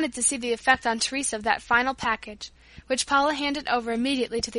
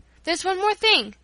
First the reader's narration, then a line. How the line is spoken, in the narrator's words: cried